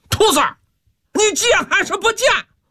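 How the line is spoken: Furious roar. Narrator (Chinese): 木来气急败坏，大吼一声

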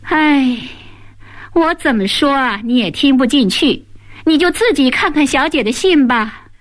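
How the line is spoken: Sighing. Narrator (Chinese): 红娘叹息一声

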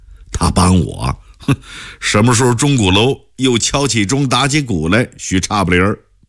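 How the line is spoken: Bitter wry laugh. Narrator (Chinese): 孟昭英只好苦笑

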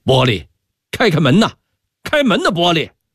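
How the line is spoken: Loud shouting. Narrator (Chinese): 他也顾不上羞臊了，拍着门板大声喊道

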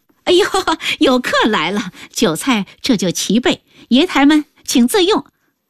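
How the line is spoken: Hasty cheerful greeting. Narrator (Chinese): 老板娘忙笑道

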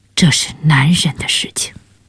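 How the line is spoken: Soft, tender. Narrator (Chinese): 萨莎脸上忽有种温柔，他轻声说

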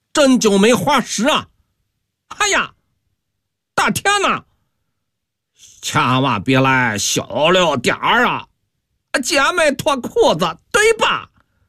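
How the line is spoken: Hoarse gamblers shouting. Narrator (Chinese): 赌徒个个破着嗓子喊叫

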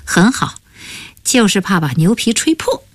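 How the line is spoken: Laughing. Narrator (Chinese): 王启尧笑道

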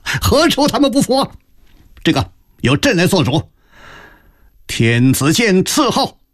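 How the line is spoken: Sudden hearty laughter. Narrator (Chinese): 康熙突然仰天大笑

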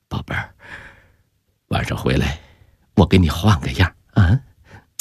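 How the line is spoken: Soft, intimate. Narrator (Chinese): 姚以斌轻声说

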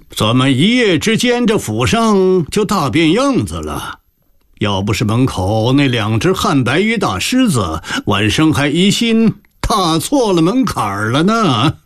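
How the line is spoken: Hearty laughing. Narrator (Chinese): 二门外传来徐乾学爽朗的笑声

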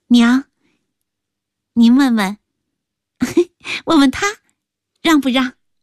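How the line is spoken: Teasing, smiling. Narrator (Chinese): 阿秀……含着笑意，故意……说道

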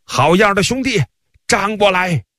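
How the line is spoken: Group shouting. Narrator (Chinese): 其他公司的人也一起高叫起来

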